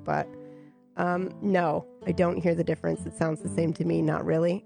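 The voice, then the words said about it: Sick-sounding voice. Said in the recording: “I still sound pretty sick”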